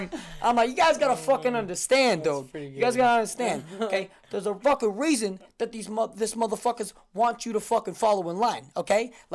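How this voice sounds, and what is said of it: Put-on Brooklyn accent. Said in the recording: “I'm doing it in a Brooklyn accent. The entire time.”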